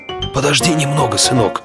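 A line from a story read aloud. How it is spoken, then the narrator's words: Whisper. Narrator (Russian): прошептал он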